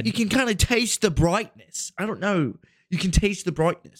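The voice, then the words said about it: Exaggerated put-on national accent. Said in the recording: “we've just offended an entire country by doing this accent”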